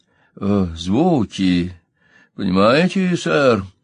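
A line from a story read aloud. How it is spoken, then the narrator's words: Hesitant. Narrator (Russian): неуверенно заговорил Колтер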